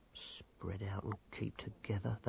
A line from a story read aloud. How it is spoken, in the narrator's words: they muttered